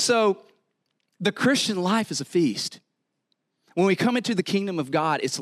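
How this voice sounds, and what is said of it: Usual voice. Nothing is said of it.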